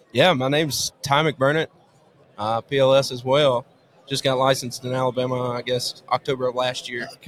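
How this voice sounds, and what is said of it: Strong regional accent. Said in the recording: “great accents, these guys ... this is how people talk ... your accent starts to come out now”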